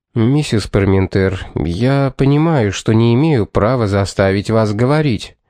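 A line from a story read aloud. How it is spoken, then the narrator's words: Unruffled tone. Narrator (Russian): ответил он невозмутимым тоном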